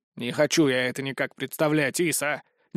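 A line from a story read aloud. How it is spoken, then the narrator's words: Displeased grumble. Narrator (Russian): недовольно проворчал дух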